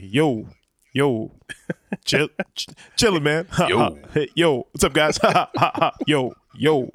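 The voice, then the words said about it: Imitates another person's voice. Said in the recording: “My impression of Hector sounds just like my impression of The Rock”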